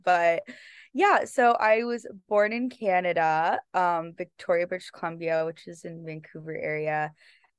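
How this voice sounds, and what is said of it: Noticeable accent. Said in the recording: “I can hear her accent.”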